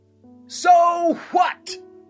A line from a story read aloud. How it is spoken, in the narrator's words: a neighbor yelled back